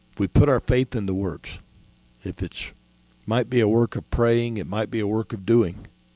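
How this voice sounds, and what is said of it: Worn-out, failing voice. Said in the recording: “my voice is gone. ... I'm about out.”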